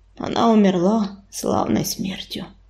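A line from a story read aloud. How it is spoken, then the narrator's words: Hoarse, strained. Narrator (Russian): хрипло выдавил из себя ураган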